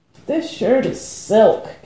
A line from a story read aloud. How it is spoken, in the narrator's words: Cat moaned